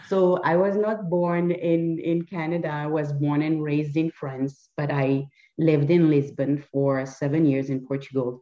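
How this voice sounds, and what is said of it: Strong French accent. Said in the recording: “my accent because it's pretty, you know, it's pretty strong”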